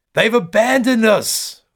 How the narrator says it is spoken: one woman screams

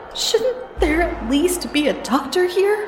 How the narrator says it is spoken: I pleaded

